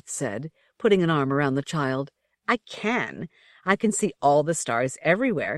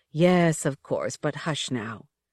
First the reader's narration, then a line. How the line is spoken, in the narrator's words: the mother murmured